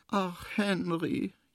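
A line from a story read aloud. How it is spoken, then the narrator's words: Small wailing voice. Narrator (German): jammert das kleine Känguru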